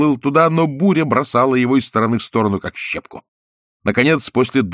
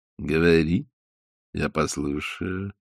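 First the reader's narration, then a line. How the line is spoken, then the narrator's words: Gentle reply from fish. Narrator (Russian): ласково ответила рыба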